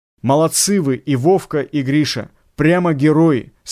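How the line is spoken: Plain. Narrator (Russian): сказал Строганов

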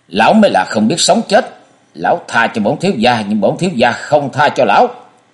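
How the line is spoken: Angry shout. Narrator (Vietnamese): Thương Yến đã giận dữ quát

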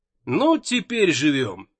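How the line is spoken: Wry grunt. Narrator (Russian): Доктор хмыкнул

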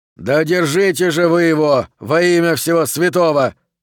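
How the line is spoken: Yelling. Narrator (Russian): завопил Хорлокер

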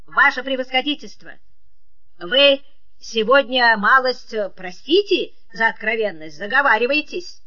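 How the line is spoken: Metallic, clipped. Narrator (Russian): металлическим голосом отчеканил

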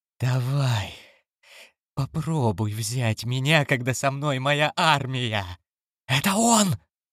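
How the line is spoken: Joyful feverish whisper. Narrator (Russian): радостно, лихорадочно прошептал Крафт

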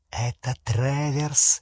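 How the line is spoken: Goblin's hiss in ear. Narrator (Russian): прошипел гоблин на ухо Гарри

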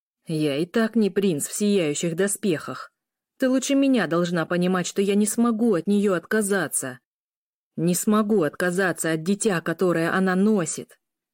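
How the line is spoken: Growling. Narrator (Russian): Каждое слово срывалось на рычание

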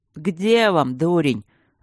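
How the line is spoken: Rough interruption, dragon. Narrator (Russian): грубо оборвал дракон

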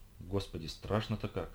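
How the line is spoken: Frightened whisper. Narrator (Russian): прошептала Карина

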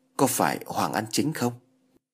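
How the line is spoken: Trembling question. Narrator (Vietnamese): Tùng Võ run rẩy hỏi

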